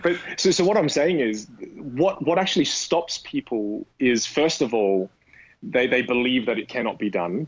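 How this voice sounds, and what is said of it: Australian accent with British hint. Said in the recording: “there's a hint of British when I speak ... the Australian friendliness of my accent mixed with a little bit of intelligence from the British”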